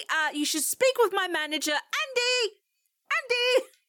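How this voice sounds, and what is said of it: Raised, shouting voice. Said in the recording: “I was purposefully raising my voice for the next line”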